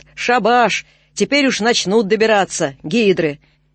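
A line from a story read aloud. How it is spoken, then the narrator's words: Piercing loud shout. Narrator (Russian): Мужик на Заволжской станции раздирательно крикнул во весь поезд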